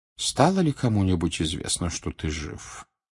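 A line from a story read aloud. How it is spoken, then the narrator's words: Quiet question. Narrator (Russian): тихо спросил Дамблдор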